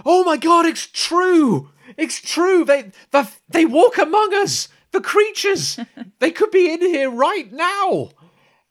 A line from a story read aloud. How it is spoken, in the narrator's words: someone else starts screaming